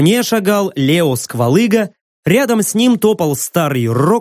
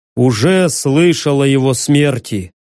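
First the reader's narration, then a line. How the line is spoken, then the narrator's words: Sad. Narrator (Russian): грустно кивнул Сквалыга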